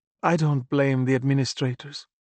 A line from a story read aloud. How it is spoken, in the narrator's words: mother added with a sigh